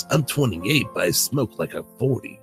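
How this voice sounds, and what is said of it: Weird gruff character voice. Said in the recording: “Solid Snake persona ... I'm talking like this sometimes, and now I got this weird voice.”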